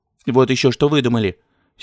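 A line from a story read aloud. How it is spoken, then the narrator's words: Angry. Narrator (Russian): сердито сказала жена Торчакова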